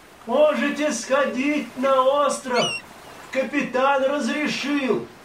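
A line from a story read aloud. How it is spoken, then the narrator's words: Distant shout through megaphone. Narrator (Russian): еще издали крикнул в морской рупор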